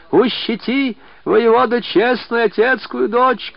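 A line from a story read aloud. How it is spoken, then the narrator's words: Shouted. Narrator (Russian): кричал Ахоня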